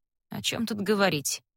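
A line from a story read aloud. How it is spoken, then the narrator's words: Gloomy speech. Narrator (Russian): мрачно говорит он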